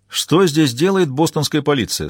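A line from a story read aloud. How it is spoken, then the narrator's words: Plain. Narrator (Russian): спросил мужчина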